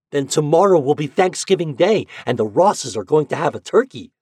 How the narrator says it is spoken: said Ben excitedly

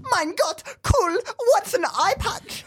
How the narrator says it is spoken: He whimpered

